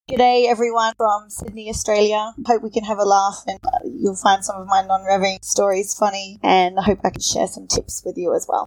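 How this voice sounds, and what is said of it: Australian accent. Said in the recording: “you have a pretty good Australian accent”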